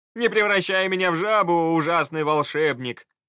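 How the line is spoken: Overly loud laughter. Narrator (Russian): слишком громко смеялся кучер

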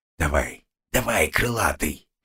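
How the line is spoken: Barely audible whisper. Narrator (Russian): едва слышно прошептал я

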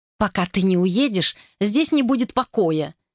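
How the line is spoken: Indignant shout. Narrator (Russian): в негодовании крикнула Мэри

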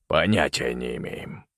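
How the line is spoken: Gloomy reply. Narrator (Russian): мрачно ответил Малкольм

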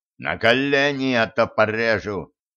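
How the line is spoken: Terrifying yell. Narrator (Russian): Хусейн страшным голосом орет

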